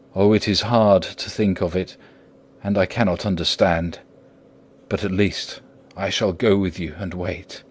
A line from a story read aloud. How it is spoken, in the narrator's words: said in a broken voice